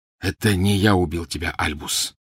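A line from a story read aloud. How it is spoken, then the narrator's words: Quiet. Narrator (Russian): негромко произнес вошедший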